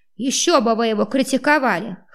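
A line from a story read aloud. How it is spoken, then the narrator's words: Unrepentant snort. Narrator (Russian): хмыкнул мужлан без малейших признаков раскаяния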